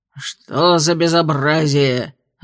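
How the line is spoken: Growling voice. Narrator (Russian): раздался рычащий голос

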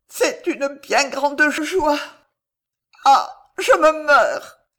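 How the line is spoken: Stammering. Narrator (French): balbutia Alice

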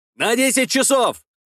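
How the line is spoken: Shouting. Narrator (Russian): закричал Ефрем

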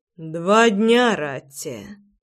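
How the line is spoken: Low husky voice. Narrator (Russian): произнес низким, с нотками хрипотцы голосом

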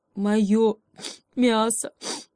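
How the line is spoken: Sobbing hare. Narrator (Russian): опять всхлипнул заяц

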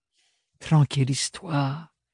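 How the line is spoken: Whispered. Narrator (French): susurra Bérénilde

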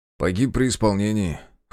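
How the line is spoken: Snorting. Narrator (Russian): хмыкнул

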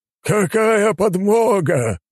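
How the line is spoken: Laughing loudly. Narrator (Russian): расхохотался он

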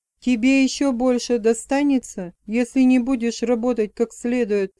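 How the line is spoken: Plain. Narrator (Russian): сказал он

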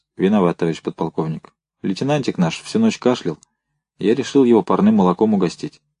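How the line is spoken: Quiet. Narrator (Russian): негромко произнес

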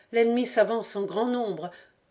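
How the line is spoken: Breathless, panting voice. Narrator (French): Mingol, d'une voix haletante

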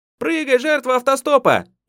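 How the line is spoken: Shouted from afar. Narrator (Russian): еще издали крикнула ему Тихонова

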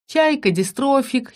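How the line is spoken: Giggling. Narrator (Russian): хихикнула я

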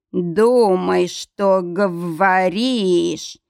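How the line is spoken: Growl. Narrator (Russian): зарычал Кэрри

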